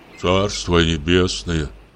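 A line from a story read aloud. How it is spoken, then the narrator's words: Sighing. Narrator (Russian): вздохнул Самойленко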